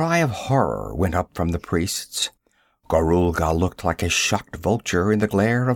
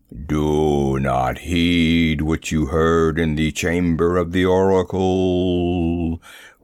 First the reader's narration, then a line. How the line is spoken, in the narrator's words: rolled that terrible voice, multiplied until it was as though a myriad voices thundered and muttered the same warning